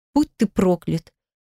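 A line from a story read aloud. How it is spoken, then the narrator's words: Sobbing. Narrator (Russian): всхлипнула я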